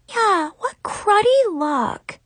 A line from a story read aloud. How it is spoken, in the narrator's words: Zoe sighed